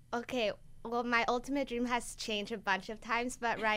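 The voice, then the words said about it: Colombian-accented English, light. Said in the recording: “your cute little Colombian accent.”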